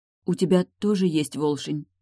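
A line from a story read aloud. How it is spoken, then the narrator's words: Hesitant question. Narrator (Russian): неуверенно спросила Яромира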